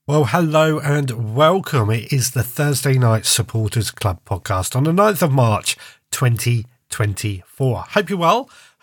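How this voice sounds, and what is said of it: Congested, blocked-nose voice. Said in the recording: “I'm a little bunged up this evening... I think I've got a bit of a cold... Just got a bunged up nose and a bit of a sore throat”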